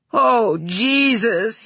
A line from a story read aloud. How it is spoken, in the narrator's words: he said, and his voice went rough with emotion, and she knew he was trying not to cry